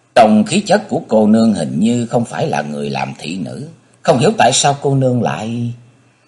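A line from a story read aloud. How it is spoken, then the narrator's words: Sighing. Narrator (Vietnamese): Âu Dương Vân Phi thở dài nói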